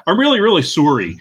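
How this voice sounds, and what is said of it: Canadian-accented "sorry". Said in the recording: “you totally hear Norm MacDonald's Canadian accent come out when he says sorry”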